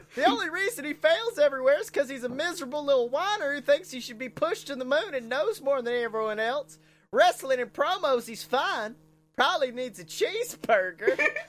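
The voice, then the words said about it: Imitates another person's voice. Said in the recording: “almost spot on Jim Cornette accent.”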